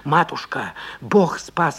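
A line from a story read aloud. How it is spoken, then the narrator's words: Hoarse rasping. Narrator (Russian): хрипел Борис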